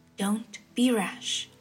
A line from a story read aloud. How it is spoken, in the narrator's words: Shi Qingxuan had returned to his male form and whispered